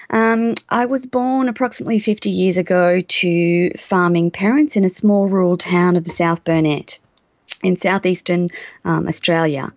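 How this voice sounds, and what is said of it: Australian English accent. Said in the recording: “The accent is Australian, and sometimes we're a little difficult to understand.”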